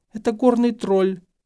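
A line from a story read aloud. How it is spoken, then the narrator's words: Whimpering reply. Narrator (Russian): Гермиона, которая уже перестала визжать, а просто тихо подвывала, ответила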